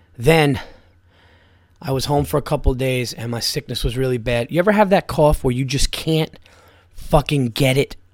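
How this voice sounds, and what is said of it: Slightly hoarse, raspy voice. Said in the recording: “I know I sound a little hoarse, a little raspy now.”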